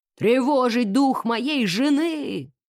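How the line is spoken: Booming trumpet-like voice. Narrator (Russian): Трубным голосом начал полковник Хьюз

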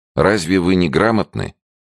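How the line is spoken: Calm inquiry. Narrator (Russian): спокойно осведомился

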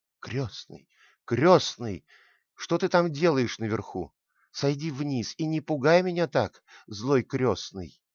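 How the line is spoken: Tearful exclamation. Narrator (Russian): воскликнула Маша со слезами в голосе

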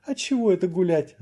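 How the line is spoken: Drunk woman laughing. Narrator (Russian): рассмеялась одна из пьяных дам

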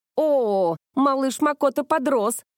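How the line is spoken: Shouting while laughing. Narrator (Russian): заорала Кёкко и хохоча

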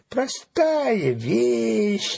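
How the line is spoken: Mocking reply. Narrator (Russian): насмешливо ответила ворона

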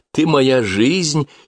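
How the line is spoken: Giggling. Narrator (Russian): хихикнула Соня

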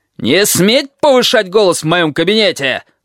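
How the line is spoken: Screaming. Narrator (Russian): завопил он

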